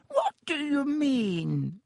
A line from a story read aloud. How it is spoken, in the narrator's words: said Dibbitt with a squeak in his voice